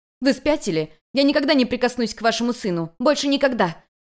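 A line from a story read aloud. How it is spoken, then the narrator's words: Frightened shout. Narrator (Russian): Испуганно закричала Юнь-Юнь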